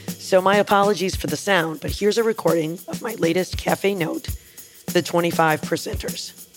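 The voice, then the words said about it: Raspy voice. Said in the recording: “my voice sounds a little raspy today”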